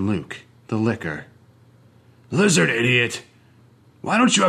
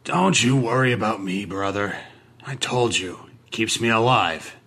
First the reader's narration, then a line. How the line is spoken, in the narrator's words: he grumbled